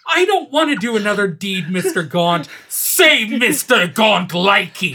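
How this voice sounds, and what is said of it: Angry voice. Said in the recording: “When you say it in an angry voice, it's even better.”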